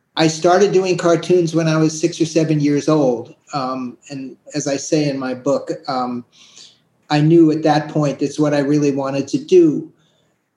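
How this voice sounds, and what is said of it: Slight New York accent. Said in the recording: “I hear a little bit of an accent.”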